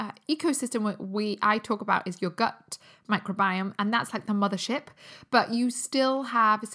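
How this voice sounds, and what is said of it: Usual voice. Nothing is said of it.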